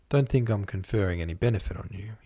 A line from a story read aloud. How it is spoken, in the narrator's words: he said